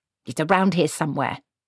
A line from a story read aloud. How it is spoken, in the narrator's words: snapped Granny